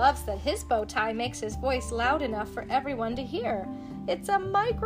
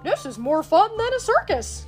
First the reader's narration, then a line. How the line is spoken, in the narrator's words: Goofy exclaims